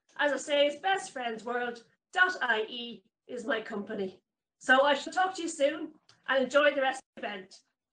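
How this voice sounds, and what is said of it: Dublin accent. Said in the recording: “the great Dublin accent there”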